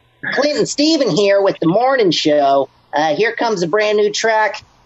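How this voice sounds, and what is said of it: Cheesy morning radio DJ voice. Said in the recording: “be as cheesy as possible. I'm talking Morning Zoo radio show... the cheesiest radio introduction... radio voice... that sounds stupid”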